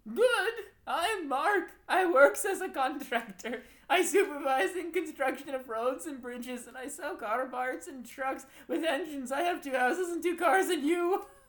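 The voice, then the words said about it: Weird put-on accent. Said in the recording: “we're going to read the next one in a weird accent”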